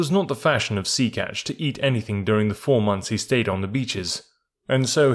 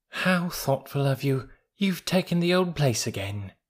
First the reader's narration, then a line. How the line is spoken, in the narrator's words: cooed